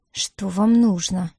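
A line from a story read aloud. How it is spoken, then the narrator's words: Tight-lipped, through teeth. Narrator (Russian): процедила она, сжав губы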